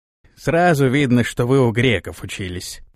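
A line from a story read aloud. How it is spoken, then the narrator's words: Grumbled. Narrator (Russian): проворчал Рузай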